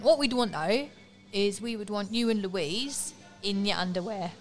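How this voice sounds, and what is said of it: Put-on London accent. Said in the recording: “I'm trying to do my London accent.”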